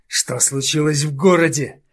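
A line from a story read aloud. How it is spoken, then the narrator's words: Growling in face. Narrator (Russian): зарычала прямо ему в морду Домина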